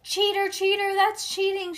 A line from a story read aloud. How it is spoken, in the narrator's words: she shouted